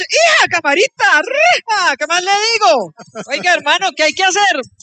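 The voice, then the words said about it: Put-on regional Colombian accent. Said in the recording (Spanish): “se le fue el acento al doctor Juan Fernando Cristo ... A mí se me pegan todos los acentos.”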